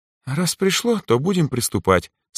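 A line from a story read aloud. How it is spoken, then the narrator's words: Calm. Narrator (Russian): спокойно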